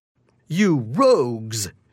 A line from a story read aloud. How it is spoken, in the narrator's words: shouts Pasquale